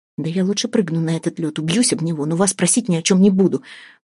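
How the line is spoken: Mutter. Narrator (Russian): пробормотала Вася

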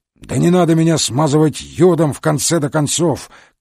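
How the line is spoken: Shout. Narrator (Russian): крикнул

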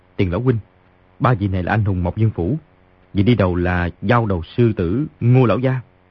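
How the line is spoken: Lowered voice. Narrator (Vietnamese): Di Tiểu Bảo hạ giọng nói

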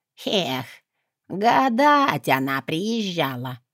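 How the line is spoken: Creaky voice. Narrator (Russian): проскрипела

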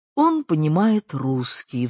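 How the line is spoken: Sighing speech. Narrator (Russian): вздохнув, проговорил Леня

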